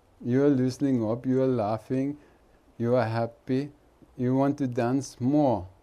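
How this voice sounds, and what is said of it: Indian-accented English. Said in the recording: “your Indian accent”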